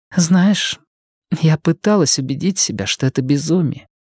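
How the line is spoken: Whisper. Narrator (Russian): прошептала она

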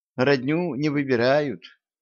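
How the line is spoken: Sad sigh. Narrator (Russian): грустно вздохнула Янка

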